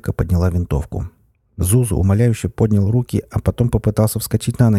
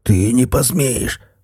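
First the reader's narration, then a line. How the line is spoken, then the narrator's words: Hoarse wheeze. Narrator (Russian): прохрипел он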